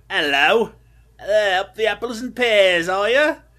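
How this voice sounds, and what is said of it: Put-on British accent. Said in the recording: “I will pull out my British accent in this episode several times”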